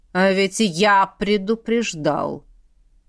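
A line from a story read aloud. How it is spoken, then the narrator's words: Through gritted teeth. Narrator (Russian): Александр процедил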